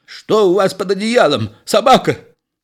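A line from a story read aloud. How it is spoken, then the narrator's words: Energetic shout. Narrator (Russian): Энергичный доктор закричал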